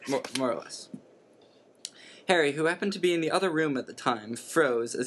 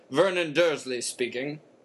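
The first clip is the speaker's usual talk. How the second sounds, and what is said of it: Very low character voice. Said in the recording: “Very low.”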